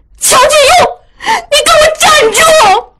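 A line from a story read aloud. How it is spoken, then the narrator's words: Furious cry. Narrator (Chinese): 雪鹰气得发昏，叫道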